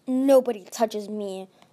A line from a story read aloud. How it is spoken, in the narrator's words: Glory snarled